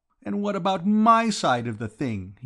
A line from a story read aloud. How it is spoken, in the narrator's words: demanded in a voice choked with feeling